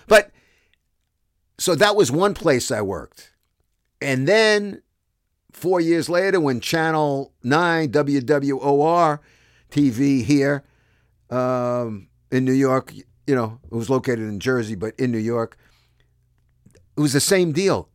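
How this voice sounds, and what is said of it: Brooklyn accent. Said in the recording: “I was a guy from Brooklyn in Canada... this Brooklyn accent”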